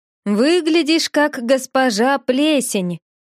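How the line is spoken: Laughing. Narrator (Russian): Снова засмеялся Келла

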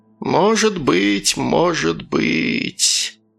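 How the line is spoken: Weary mumble. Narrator (Russian): пробормотала Саяра, прикрыв глаза и как-то обмякнув

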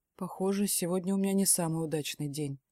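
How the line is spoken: Velvety despairing voice. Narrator (Russian): бархатным голосом произносит он, и в его тоне мне слышится отчаяние

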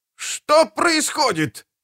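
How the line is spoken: Yelled. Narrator (Russian): завопил доктор Чаб

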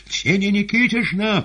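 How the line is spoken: Piercing shout. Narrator (Russian): пронзительно закричал он

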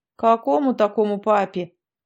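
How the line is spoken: Old man's menacing question. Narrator (Russian): грозно спросил косматый старик

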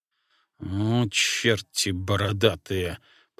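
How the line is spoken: Grumbling moose. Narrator (Russian): проворчал лось

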